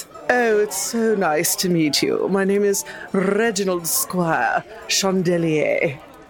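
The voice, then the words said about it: Good put-on character accent. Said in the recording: “It's a good accent”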